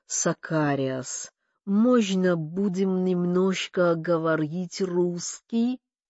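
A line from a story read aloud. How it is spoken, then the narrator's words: Pleading drawl. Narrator (Russian): протянул умоляюще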